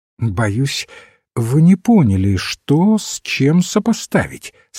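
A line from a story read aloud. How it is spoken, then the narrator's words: Plain. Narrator (Russian): сказал отец Браун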